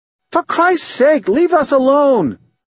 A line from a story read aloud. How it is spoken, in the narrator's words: She shrieks at Pemulus